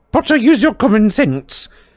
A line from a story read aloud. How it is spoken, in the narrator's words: snapped Professor McGonagall with an abrupt return to her usual manner